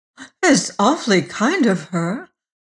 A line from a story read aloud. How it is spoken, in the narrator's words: said warmly